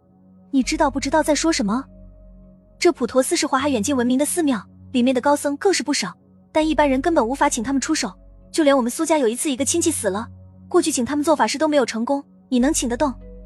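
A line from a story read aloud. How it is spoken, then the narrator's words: Hurried anxious question. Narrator (Chinese): 苏婉儿又急忙的询问道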